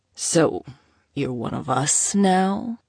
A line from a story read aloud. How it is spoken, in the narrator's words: Sato drawled, his voice dripping in malice